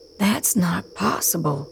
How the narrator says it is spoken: Razio whispers

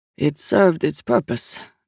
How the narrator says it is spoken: Manchu said grimly

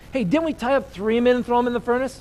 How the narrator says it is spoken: Nebuchadnezzar jumps up in amazement and exclaims to his advisors

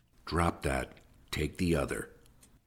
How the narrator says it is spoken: Tom growled under his breath

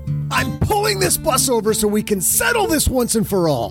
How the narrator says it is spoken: Doug exploded, screaming

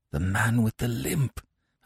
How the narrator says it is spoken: I said hoarsely

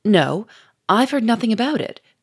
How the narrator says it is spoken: cried Gouchard

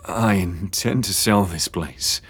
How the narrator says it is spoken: James murmured through clenched teeth

